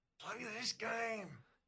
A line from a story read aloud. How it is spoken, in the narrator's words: he murmurs